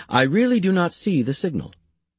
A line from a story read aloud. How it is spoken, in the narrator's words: he calmly remarked